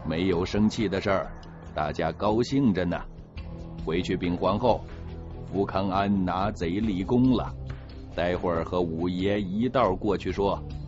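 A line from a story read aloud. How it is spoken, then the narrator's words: Smiling. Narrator (Chinese): 就笑着说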